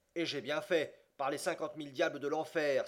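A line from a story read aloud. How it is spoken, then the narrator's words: Exclaiming. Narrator (French): s'écria Andrew Speedy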